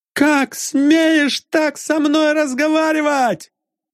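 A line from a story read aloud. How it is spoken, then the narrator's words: Angry yelling. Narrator (Russian): заорал на молодого человека Жарков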